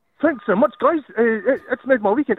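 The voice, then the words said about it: New Zealand accent. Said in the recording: “your New Zealand accent”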